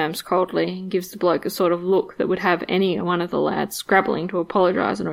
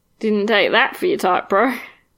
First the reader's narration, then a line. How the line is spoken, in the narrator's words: the guy says, biting back one of those gross, arrogant, judgmental laughs